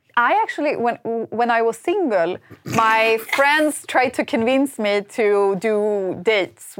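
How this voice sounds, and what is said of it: Usual voice. Nothing is said of it.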